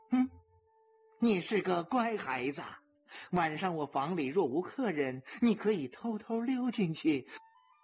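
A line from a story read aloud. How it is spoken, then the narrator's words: Laughing. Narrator (Chinese): 大象也笑了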